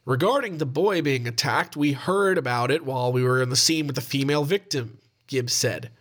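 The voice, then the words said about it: Put-on Ohio American accent. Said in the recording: “That's my Ohio accent, by the way.”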